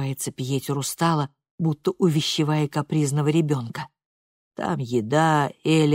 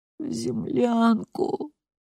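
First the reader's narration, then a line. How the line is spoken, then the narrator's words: Strained mumble. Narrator (Russian): с трудом бормочет Анна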